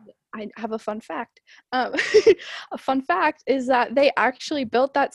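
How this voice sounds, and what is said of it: Usual voice. Nothing is said of it.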